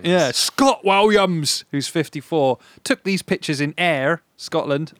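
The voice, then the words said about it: Put-on Scottish accent. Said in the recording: “Scottish accent mindset, because you know I've struggled with it before ... That's good. That is good, yeah.”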